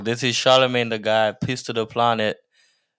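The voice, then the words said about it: Imitates another person's voice, accented. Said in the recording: “My accent came out again.”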